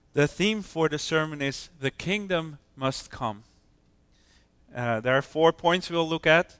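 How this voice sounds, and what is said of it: Hoarse voice from a cold. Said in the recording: “apologize for my voice. I have a bit of a cold and it's getting on the vocal cords now”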